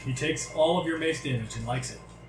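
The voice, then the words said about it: Odd put-on character accent. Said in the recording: “I don't know what that accent is... I don't know what that is either. It sounded a little bit of Sultan.”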